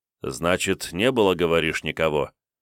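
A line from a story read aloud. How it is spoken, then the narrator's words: Thoughtful clarifying question. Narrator (Russian): уточнил Кунигас, задумчиво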